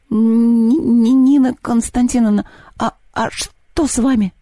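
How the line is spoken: Strained, forced out. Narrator (Russian): выдавил из себя Антон

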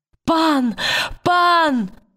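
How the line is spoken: Shouting. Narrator (Russian): закричала она

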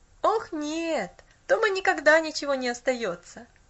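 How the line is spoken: Child laughing. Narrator (Russian): засмеялся мальчик

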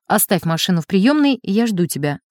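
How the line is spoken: Plain. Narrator (Russian): сказал хозяин

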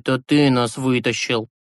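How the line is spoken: Plain. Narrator (Russian): сказал Юрасик

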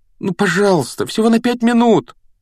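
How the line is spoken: Pleading. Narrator (Russian): умоляющим тоном произнес Гарри

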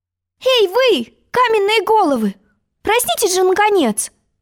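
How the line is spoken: Desperate exclamation. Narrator (Russian): отчаянно воскликнула Алиса

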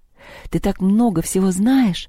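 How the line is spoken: Envious sigh. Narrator (Russian): завистливо вздохнула Маша

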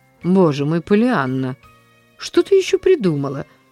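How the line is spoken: Sigh. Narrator (Russian): вздохнула мисс Полли

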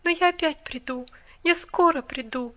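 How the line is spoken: Tender promise. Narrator (Russian): ласково пообещала она

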